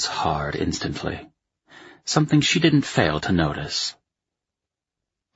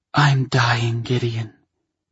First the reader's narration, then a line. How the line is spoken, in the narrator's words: she breathed, her lips and cheeks flushing pink